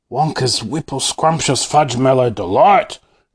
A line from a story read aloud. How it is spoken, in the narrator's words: cried Grandpa George